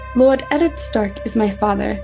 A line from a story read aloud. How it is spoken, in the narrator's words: John admitted stiffly